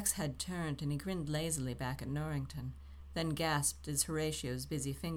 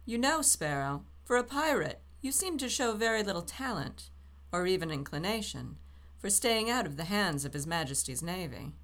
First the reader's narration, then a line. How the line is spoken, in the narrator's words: Norrington chuckled and called over